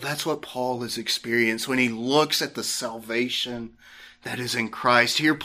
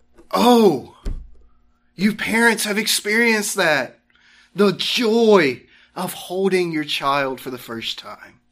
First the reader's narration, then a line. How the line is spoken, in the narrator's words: they both exclaim with joy